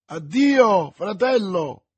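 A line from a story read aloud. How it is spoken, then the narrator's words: Woman's exclamation. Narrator (Italian): esclamò Milady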